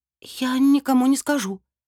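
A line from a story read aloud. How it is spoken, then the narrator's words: Forced out with foreboding. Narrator (Russian): выдавила я, охваченная дурным предчувствием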